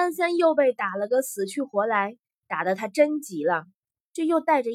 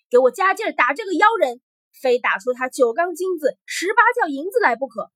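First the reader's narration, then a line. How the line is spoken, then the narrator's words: Fierce loud command. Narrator (Chinese): 这回皇帝更凶恶了 大声向武士们说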